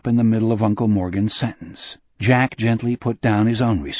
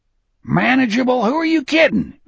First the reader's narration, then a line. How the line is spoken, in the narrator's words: Uncle Morgan yelled